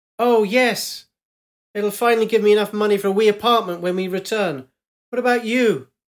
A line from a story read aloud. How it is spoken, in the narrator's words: half shouts